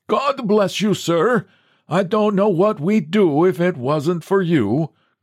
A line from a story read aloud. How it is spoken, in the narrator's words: cried the old Norwegian from the door